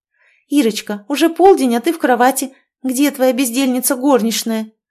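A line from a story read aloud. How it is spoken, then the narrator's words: Exclamation. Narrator (Russian): воскликнула Оля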